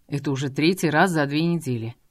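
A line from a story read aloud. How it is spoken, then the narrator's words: Cold. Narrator (Russian): холодно произнес Фанниан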